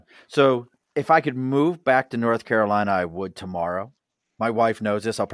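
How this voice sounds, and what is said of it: Baltimore accent. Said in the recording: “I grew up in Baltimore. As you can hear this accent, this is not an Albany accent.”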